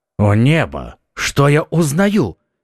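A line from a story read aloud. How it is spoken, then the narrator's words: Duke's exclamation. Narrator (Russian): воскликнул герцог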